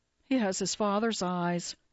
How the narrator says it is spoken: Roman blandly answers

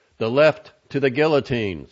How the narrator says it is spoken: someone in the audience yelled

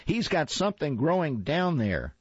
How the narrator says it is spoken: she hollered

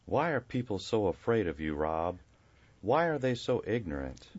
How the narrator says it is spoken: Buzz asked softly through a heavy sigh

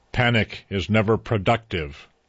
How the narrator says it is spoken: booms the alien voice from the fading park

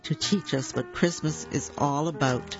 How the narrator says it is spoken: laughed Noddy

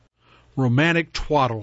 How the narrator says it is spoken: snapped

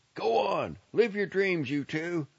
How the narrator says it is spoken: Jim shouted

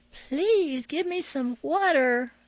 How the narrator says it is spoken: I begged

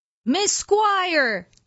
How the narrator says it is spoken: Chad Jacobs yells

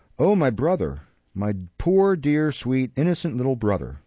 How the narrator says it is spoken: exclaimed Nancy, bursting into tears and wringing the little basket and the street door key in an agony of distress

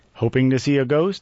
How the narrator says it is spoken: I chuckled

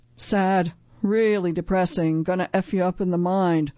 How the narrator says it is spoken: Kirsten sighed

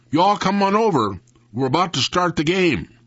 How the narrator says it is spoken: Dewey Lee shouted out

